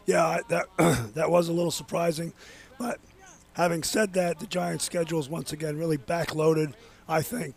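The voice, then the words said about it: Raspy voice. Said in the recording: “so his voice is a little raspy,”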